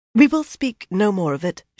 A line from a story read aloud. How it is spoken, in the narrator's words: said stiffly